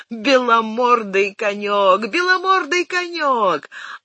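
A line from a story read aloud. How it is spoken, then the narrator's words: Shouted. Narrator (Russian): он крикнул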